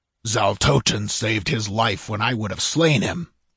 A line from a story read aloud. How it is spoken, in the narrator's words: snarled Taraskus